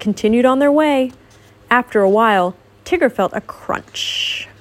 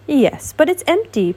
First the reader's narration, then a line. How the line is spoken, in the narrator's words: announced happily